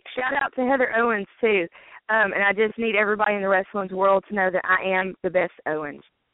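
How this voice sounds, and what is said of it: Southern US country twang. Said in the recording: “my country twang ... I love your country twang.”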